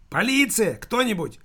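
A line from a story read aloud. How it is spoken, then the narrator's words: Shouting. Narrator (Russian): кричал Нишник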